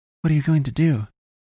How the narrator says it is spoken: Carrie asked him urgently

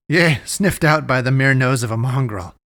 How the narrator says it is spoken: she answered him, laughing

